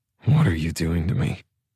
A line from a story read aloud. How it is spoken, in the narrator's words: I sigh, whispering